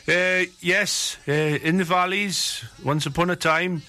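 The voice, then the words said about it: Put-on Welsh accent. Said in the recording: “I've slipped into a Welsh accent here, boy.”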